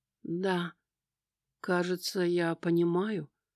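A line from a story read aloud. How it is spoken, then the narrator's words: Timid admission. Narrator (Russian): робко призналась Эми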